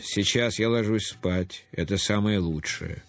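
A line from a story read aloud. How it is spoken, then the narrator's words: Calm. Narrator (Russian): Он ответил спокойно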